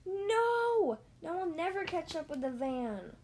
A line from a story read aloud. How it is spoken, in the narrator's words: Woody cried